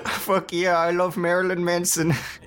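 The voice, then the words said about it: Exaggerated mock Indian accent. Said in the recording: “Why did you give me an Indian accent? ... that was the worst Jordan impression I've ever heard ... Why did it have an accent? ... I was just like puckering my lips”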